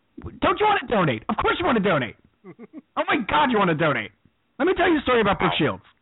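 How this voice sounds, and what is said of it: Imitates another person's voice. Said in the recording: “had a Kathy Griffin in the repertory, did you? ... An impression. Is that the first infant impression of the new season?”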